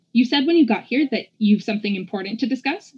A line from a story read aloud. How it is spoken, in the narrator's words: she asked